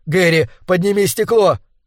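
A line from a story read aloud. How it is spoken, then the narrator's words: Desperate yell. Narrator (Russian): Я отчаянно завопил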